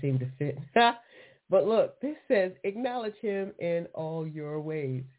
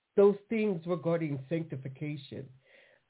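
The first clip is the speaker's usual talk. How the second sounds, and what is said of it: Exaggerated, odd put-on voice. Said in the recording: “crazy voice”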